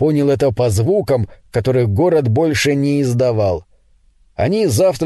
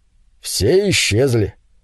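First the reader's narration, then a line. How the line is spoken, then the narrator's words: Calm, casual remark. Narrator (Russian): Муж спокойно, словно речь шла о погоде, заметил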